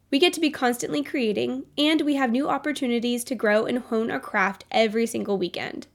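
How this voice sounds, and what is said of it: Nasal, congested voice from a cold. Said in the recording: “my voice sounds right now. I am battling a cold ... I sound like a nasally mess”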